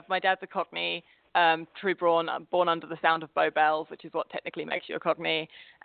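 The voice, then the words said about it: Essex-like southeast English accent. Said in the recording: “I'm trying to place your accent, and I'm getting kind of ... Essexy ... Not totally Essex”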